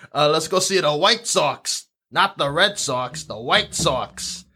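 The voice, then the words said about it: Put-on Chicago accent. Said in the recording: “Can we do a Chicago accent? ... Chicago accent.”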